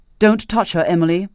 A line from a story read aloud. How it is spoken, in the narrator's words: he said sharply